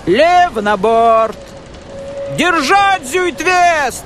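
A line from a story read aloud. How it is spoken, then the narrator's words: Shouting into the wind. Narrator (Russian): Кричал, а ветер срывал с губ слова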